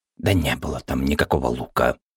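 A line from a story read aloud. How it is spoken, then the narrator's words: Tired grumble. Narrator (Russian): устало буркнула краска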